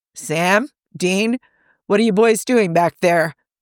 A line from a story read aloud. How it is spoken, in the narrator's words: John hollered from the lounge room